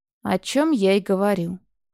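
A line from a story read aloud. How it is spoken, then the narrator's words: Gloomy summing up. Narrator (Russian): мрачно подытожил Коршун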